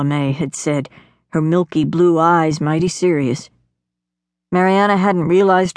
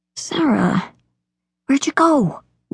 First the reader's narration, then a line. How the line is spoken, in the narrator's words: whispered Mariana